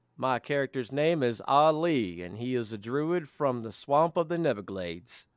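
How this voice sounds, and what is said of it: Put-on character accent. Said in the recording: “Good accent.”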